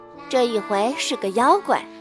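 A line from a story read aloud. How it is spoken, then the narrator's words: Long sigh. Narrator (Chinese): 妈妈长叹了一声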